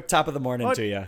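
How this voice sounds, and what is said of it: Exaggerated leprechaun-style Irish accent. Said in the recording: “can you please grace us with your Irish accent? ... It's like the lucky charm. ... It's just the leprechaun.”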